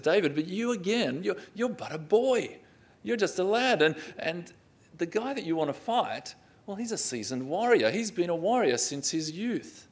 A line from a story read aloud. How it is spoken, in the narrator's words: you can almost hear the laughter or the ridicule in his voice as he responds and says